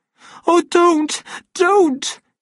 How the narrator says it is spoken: she begged him in a voice which trembled from the shaking

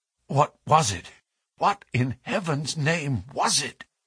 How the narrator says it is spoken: he whispered

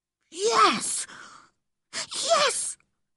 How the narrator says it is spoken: whispered excitedly

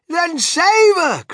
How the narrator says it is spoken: cried Mrs

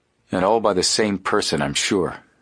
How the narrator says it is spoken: Frank remarked grimly

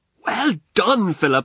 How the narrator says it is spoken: I cried

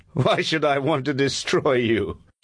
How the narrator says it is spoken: He said, laughing

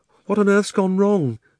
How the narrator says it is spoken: said Polly in a frightened voice, but not quite so frightened as you might expect, because it's hard to feel really frightened in that wood

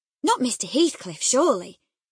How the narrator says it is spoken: I exclaimed

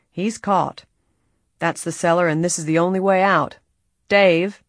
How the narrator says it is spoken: Ed Rawley said grimly

